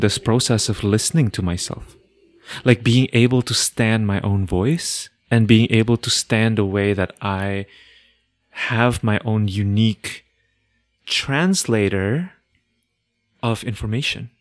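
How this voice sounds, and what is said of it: Non-native English accent. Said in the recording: “my accent as well, or like with the fact that English is not my first language”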